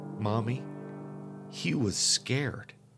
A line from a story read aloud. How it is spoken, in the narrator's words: David sat calmly watching me run around, and then he said